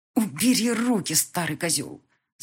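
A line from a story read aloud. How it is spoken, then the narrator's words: Hissed. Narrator (Russian): зашипела Мика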